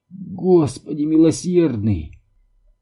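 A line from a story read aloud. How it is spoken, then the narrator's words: Moaning through clenched teeth. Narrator (Russian): простонала она сквозь до боли стиснутые зубы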